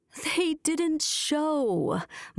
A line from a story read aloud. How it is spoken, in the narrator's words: moaned Mrs